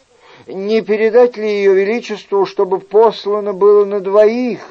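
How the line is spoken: Timid servant asking. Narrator (Russian): робко спросил слуга

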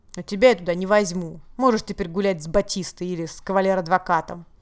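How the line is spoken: Angry, after a pause. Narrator (Russian): Он умолк, потом сердито добавил

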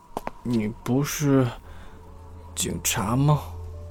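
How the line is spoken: Drunken mumbling. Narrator (Chinese): 齐霄喝多了……嘟囔着

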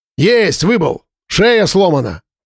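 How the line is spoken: Shouting. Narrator (Russian): кричал Марат

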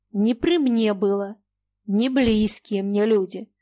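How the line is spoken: Stern. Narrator (Russian): сказал Маякин строго

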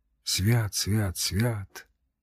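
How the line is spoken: Whispered. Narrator (Russian): шептал он

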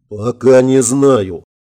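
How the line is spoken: General, through gritted teeth. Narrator (Russian): процедил генерал

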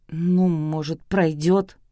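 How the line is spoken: Muttered. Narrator (Russian): пробормотал Артур

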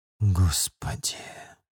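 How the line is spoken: Quiet, aloud. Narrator (Russian): тихо сказал я вслух

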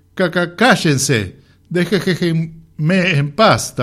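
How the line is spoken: Stuttering. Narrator (Spanish): tartamudeaba

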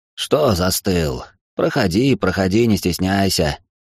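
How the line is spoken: Hoarse voice from inside. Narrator (Russian): раздался изнутри сиплый голос

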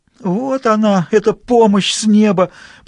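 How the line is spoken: Groaning detective. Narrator (Russian): простонал сыщик

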